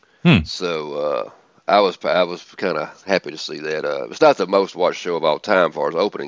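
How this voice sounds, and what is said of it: Southern American accent. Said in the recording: “I got a southern accent”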